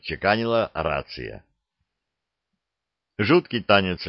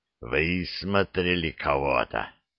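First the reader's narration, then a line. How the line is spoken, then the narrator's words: Hoarse voice after silence. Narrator (Russian): хриплым от продолжительного молчания голосом сказал снайпер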